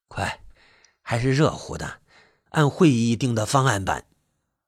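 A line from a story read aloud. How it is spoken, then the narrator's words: Low voice. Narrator (Chinese): 村支书低声说道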